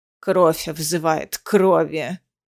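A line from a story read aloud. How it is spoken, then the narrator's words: Creaky voice. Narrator (Russian): скрипучим голосом произнесла предводительница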